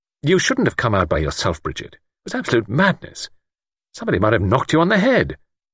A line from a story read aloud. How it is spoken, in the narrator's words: Luke said irritably